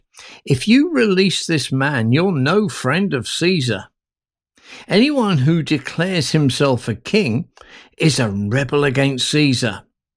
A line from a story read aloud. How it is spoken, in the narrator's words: the Jewish leaders shouted